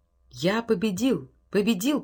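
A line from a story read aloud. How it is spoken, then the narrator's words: Whisper. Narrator (Russian): прошептал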